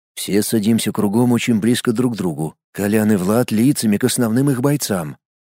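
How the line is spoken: Whisper. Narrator (Russian): прошептал

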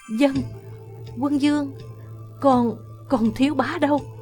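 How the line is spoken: Trembling voice. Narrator (Vietnamese): Giọng Quân phu nhân run run

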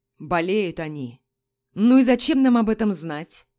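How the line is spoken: Displeased grumbling. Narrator (Russian): недовольно ворчал мужчина

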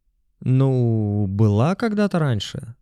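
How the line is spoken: Uncertain. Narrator (Russian): неуверенно сказал Жан

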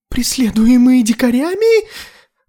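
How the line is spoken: Exclamation. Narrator (Russian): воскликнул Тарталет

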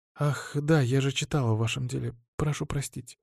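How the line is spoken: Quiet young woman. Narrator (Russian): тихо сказала девушка

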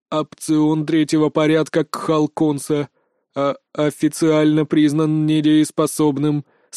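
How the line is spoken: Cold stuttering. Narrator (Russian): сообщил он холодным заикающимся голосом

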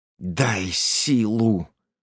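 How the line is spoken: Hissed. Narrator (Russian): прошипел

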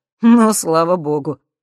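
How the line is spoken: Short laugh. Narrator (Russian): хохотнул Максим

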